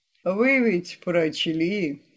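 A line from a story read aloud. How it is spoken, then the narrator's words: Sighing. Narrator (Russian): вздохнул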